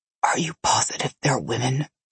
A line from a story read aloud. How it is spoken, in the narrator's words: Nikolai whispered in my ear